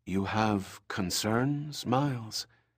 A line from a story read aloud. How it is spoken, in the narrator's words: She spoke in a low whisper